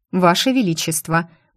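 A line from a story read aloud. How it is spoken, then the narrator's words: Stern. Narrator (Russian): у меня получилось строго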